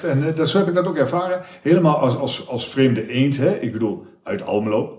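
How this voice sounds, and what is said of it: Strong regional Dutch accent. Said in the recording (Dutch): “Ik heb een accent van hier tot Grotten.”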